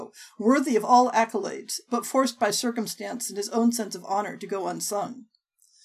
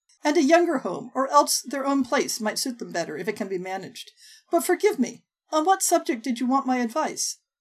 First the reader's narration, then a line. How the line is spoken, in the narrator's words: Colonel Brandon laughed, a short, soft sound that seemed to startle him, as if he had not expected to find merriment in the conversation